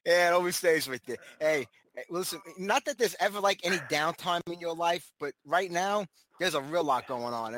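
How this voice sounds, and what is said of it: Brooklyn New York accent. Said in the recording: “originally Brooklyn, New York ... you can't get rid of the accent either”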